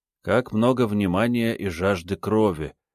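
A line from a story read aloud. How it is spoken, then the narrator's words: Quiet grumble. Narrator (Russian): тихо буркнул Руон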